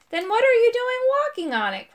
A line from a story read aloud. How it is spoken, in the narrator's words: cried, wringing his paws